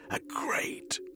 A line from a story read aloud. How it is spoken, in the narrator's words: he croaked